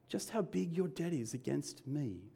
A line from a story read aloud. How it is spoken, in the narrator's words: says the master